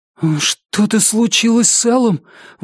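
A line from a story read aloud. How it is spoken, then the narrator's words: Breathless exhale. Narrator (Russian): выдохнул Бив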